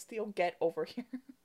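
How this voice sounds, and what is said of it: Stern scolding mom voice. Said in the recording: “mom voice ... every mom has a mom voice”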